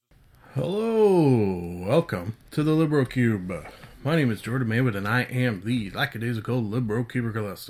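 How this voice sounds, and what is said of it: Deeper than normal morning voice. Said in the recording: “my deeper than normal sexy voice... recording early in the morning... my voice will sound gooder”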